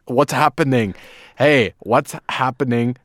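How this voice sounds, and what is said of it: Put-on German accent. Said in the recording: “That's how German guys try to talk to Americans. ... Good German accent there.”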